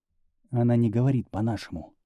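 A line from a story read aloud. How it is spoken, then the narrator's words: Whisper. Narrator (Russian): шепнул ему Шимон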